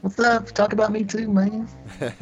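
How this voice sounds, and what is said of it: Put-on character voice. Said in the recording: “I don't know if that's Crisco's voice. I just did a voice there.”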